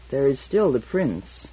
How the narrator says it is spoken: murmured Comason almost to himself

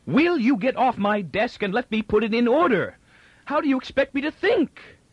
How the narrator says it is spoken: With a sudden spasmodic recrudescence of ferocity, screamed

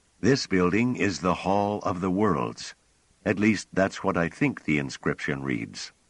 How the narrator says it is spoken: Pellerat, his voice moderating at once, said

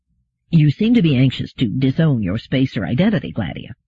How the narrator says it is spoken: said D

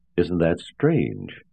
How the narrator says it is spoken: said William coolly

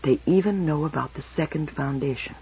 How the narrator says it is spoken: Beta whispered

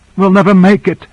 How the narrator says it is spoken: gasped Korra

